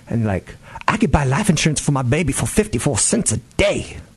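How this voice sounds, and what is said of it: Imitates a typical mom's voice. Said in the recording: “That's my impression of all moms.”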